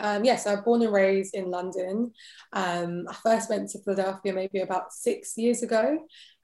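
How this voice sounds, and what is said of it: British accent. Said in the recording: “You have a, a British accent. You're from England.”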